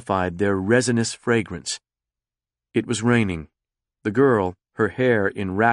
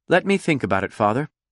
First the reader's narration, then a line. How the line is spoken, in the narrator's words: Conrad said